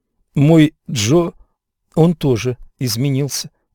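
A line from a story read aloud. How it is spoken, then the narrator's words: Plain. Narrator (Russian): сказала она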